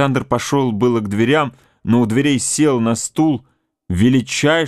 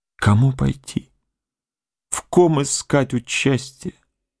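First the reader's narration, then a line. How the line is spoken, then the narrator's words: Quiet. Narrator (Russian): сказал тихо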